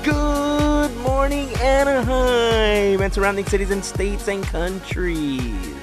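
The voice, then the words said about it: Fake radio announcer voice. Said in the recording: “That's my fake radio voice”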